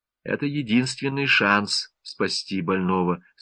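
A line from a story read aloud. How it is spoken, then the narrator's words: Calm. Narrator (Russian): спокойно продолжал Голубев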